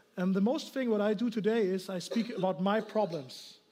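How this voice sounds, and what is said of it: German accent. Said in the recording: “I'm from Germany, you know, here, maybe you hear my accent.”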